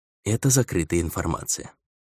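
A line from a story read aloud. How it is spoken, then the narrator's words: Flat even tone. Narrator (Russian): ровным тоном произнес сержант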